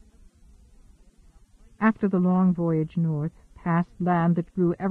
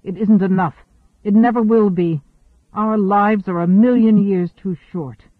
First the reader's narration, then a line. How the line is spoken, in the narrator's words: Abruptly, harshly